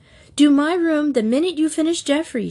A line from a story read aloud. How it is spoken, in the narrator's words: she begged